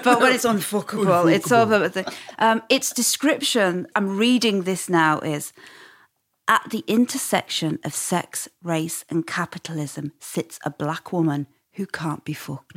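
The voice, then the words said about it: Northern English accent. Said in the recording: “when I say it in my northern accent, it makes it much more unpalatable”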